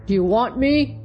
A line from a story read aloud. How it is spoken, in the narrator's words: growled he in his deep, rough voice